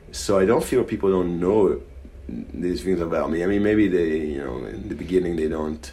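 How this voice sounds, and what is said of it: Israeli accent. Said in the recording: “I even came to embrace my accent ... I would say definitely Israeli ... I don't think it's even something I can hide”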